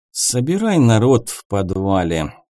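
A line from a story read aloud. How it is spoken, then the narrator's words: Heavy sigh. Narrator (Russian): тяжело вздохнул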